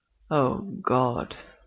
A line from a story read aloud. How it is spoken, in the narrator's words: groans, unashamedly